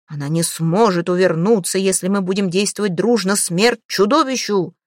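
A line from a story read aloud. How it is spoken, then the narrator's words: Crowd shouting. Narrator (Russian): Они кричали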